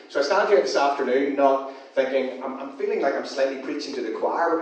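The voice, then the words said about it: Non-local accent. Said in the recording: “as you can tell from the accent... You can tell this accent does not come from around here”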